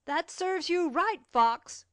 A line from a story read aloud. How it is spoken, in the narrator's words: cried out Cecil at every kick given to the dog